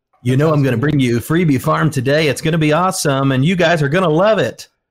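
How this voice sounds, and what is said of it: Smooth radio announcer voice. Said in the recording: “that beautiful radio voice that he's got over there”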